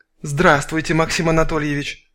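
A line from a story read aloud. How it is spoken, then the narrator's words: Whispering. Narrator (Russian): зашептала собеседница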